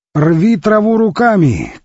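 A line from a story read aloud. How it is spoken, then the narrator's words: Shouting over wind. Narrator (Russian): крикнул он, стараясь пересилить шум ветра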